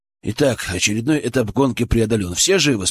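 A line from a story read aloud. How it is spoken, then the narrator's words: Plain. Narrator (Russian): спросил Валера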